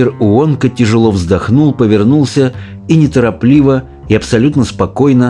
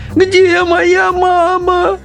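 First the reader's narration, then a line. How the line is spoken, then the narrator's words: Sobbing. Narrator (Russian): рыдала миссис Бакет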